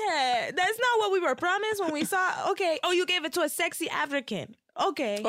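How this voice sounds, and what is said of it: Usual voice. Nothing is said of it.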